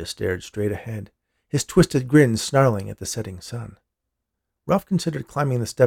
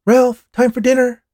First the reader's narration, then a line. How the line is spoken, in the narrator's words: Ralph's mom shouted from the front door